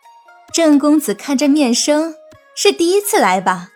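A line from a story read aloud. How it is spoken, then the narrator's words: Smiling. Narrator (Chinese): 锦娘微笑着说道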